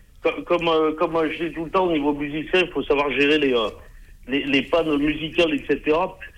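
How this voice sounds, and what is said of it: Regional French Alpine accent. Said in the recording (French): “ton bel accent du Grésivaudan”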